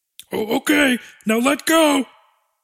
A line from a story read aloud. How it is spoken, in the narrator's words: Dexy yelled from the human's guts, his voice muffled but excited